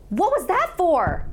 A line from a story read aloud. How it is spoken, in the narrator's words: I yelled at him